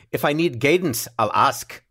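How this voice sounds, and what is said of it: Poor put-on Scottish accent. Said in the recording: “my Scottish accent sounds very similar to Helen's Boston one ... it kind of sounded like a Lucky Charms commercial”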